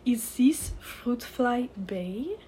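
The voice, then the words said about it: Outrageous exaggerated French accent. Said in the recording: “said the beau in an outrageous and completely unnecessary French accent”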